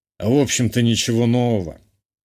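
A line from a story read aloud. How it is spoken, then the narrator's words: Father's sudden snort. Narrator (Russian): неожиданно хмыкнул отец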